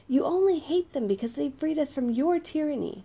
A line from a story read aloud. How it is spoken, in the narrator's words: a woman yelled back at him